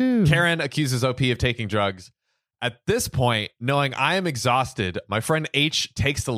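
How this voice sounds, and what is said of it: Usual voice. Nothing is said of it.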